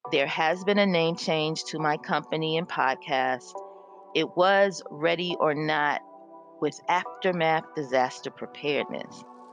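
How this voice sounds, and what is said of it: Strained, congested voice. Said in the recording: “apologize for my voice. My allergies are very, very flared right now.”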